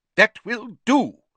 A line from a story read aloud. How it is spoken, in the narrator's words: he said sharply